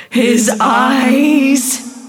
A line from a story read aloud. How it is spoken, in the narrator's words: screamed in near hysterics